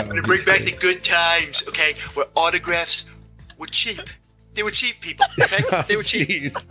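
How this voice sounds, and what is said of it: Imitates another person's voice. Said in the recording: “impersonation ... of Trump”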